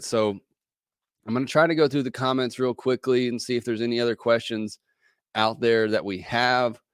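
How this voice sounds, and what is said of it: Hoarse, strained voice from a cold. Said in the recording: “I'm kind of losing my voice again, trying to battle this cold”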